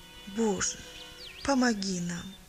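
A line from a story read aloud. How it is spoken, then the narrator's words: Sighing. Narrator (Russian): вздохнула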